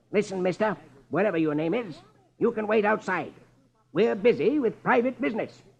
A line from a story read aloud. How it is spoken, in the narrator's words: Marlowe snaps